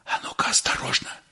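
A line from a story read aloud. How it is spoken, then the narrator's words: Whisper. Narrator (Russian): шепнул Щукин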